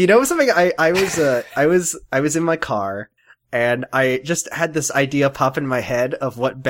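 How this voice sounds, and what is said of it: Usual voice. Nothing is said of it.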